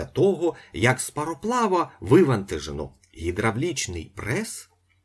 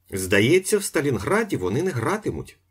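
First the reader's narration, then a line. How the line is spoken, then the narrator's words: Plain. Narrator (Ukrainian): сказав Іполит Матвійович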